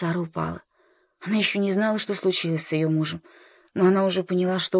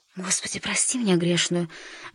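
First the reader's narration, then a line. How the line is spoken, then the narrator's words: Mechanical whisper. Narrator (Russian): машинально прошептала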